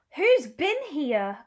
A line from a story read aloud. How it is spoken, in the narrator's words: cried Sly Looking